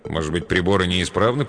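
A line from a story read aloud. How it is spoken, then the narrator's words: Grumbling. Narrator (Russian): проворчал Джоул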